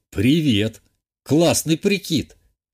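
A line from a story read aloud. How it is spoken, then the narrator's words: Snorting. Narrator (Russian): Хмыкнул я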